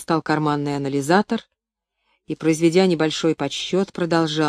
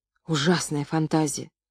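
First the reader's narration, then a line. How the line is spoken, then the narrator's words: Whispered. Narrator (Russian): прошептала Каларла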